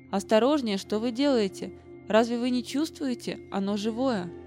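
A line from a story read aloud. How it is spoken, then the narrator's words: Alarmed exclamation. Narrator (Russian): Очевидно, мы обращались с ним слишком неловко, потому что мастер воскликнул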